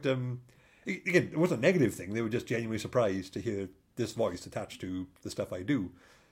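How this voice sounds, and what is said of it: Mild Welsh accent. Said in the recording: “Welsh accent, which, by the way, I don't think that your accent doesn't sound particularly thick ... my family say I sound posh now”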